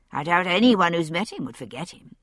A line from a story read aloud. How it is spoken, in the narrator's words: I said dryly